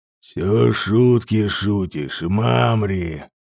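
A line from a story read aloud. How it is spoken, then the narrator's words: Quiet deep growling voice. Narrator (Russian): негромко сказал он, и его голос прозвучал, словно низкий грудной рык дикого зверя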